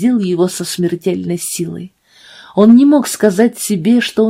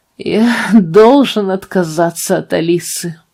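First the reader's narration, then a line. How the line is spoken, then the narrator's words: Groaning. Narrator (Russian): простонал он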